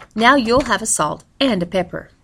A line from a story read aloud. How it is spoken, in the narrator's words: Jameson had said, and then quickly added